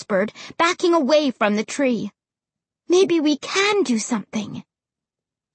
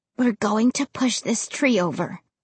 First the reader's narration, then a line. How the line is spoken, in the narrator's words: I whispered with so much confidence